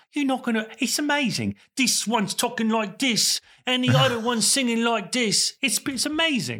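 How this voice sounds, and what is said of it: Michael Caine impression. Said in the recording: “I have to get in character. Hold on. Michael Caine.”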